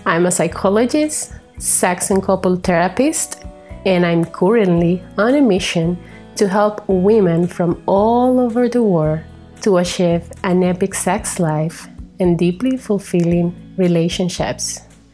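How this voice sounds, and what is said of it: Latin accent. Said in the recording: “I come with a Latin accent, and I'm really proud of it.”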